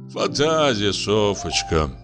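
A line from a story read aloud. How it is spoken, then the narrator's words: Sighing. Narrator (Russian): вздохнул Лубянцев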